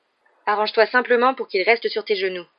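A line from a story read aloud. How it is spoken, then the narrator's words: Grumpy tone. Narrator (French): dit Ron d'un ton grincheux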